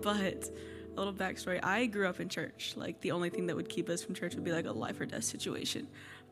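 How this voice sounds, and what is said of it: Hoarse, strained voice. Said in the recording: “I lost my voice at camp”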